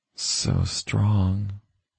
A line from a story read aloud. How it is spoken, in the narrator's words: she whispered